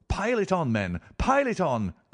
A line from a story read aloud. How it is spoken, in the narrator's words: cried Holmes